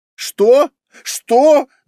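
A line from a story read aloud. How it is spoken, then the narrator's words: Yelling. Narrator (Russian): заорал Мамыкин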